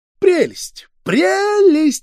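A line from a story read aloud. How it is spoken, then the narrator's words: Squeaky. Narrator (Russian): запищал Ситников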